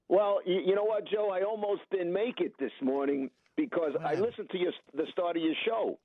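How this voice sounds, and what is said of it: Quintessential New York accent. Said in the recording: “Listen to this man's accent. This is the quintessential New Yorker”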